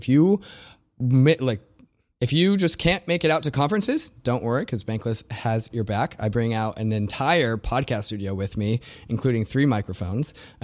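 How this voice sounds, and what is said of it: Slightly raspy voice. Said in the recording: “sometimes I put my voice on the line, too, to get that done, and that's why you're going to be hearing a little bit raspy of a voice”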